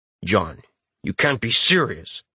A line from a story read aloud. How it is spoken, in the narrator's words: Jim says gruffly